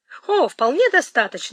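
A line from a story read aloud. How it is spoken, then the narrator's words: Exclamation. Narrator (Russian): воскликнул мистер Йетс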